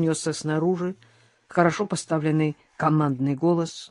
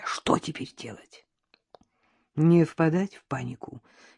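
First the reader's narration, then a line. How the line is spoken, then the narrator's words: Barely audible reply. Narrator (Russian): едва слышно отозвалась Надежда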